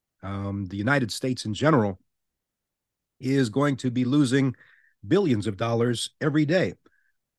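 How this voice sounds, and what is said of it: Hoarse, fading voice. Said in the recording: “I'm kind of losing my voice right now ... I'm suffering with a little bit of a cold and an allergy thing going on right now.”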